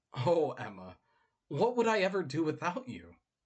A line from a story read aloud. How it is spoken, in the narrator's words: she heard herself happily chirp out the words